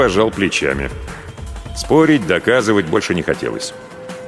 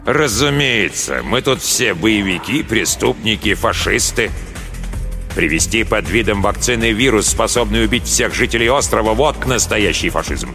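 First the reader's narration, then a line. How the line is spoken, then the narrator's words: Through clenched teeth. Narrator (Russian): процедил сквозь зубы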